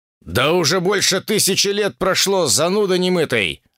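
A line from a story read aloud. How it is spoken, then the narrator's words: Snapping retort. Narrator (Russian): огрызнулся Шао Цзин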